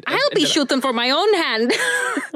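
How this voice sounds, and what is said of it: Scottish woman's accent, Merida impression. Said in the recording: “A Scottish woman ... That was Merida.”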